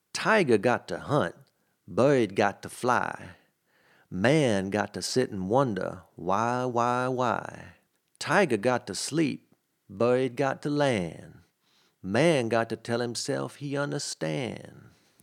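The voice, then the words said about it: Imitated New Orleans accent. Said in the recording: “what accent was that? ... That was my approximation of a New Orleans accent.”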